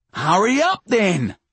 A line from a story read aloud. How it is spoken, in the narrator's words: Marv roars back at him